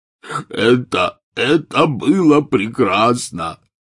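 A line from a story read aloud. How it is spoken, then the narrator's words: Howling wail. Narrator (Russian): взвыл Хагрид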